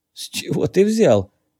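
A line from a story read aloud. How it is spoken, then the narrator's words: Strained, forced out. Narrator (Russian): выдавил Джей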